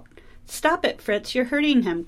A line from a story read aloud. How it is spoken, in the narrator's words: cried Clara